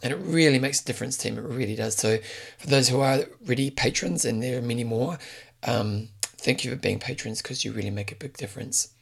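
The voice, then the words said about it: Damaged, strained voice. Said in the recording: “my voice is a bit screwed right now”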